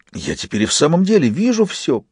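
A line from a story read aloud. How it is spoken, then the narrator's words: Joyful chirping. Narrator (Russian): прощебетал радостно Фист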